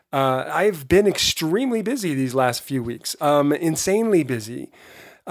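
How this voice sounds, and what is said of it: Slightly hoarse voice. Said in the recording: “As you can hear, my voice is a bit hoarse.”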